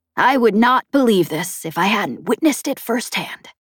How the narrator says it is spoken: Chet whispered

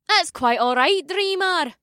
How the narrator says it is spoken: May chirped

